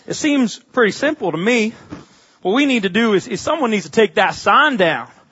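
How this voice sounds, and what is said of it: Strong southern US accent. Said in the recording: “in about the most southern voice, I'll do my best impression”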